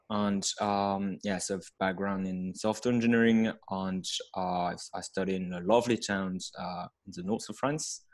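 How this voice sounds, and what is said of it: French accent. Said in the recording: “I'm hailing from France with my accent.”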